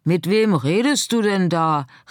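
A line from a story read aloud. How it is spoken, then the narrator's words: Call from outside. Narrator (German): rief von draußen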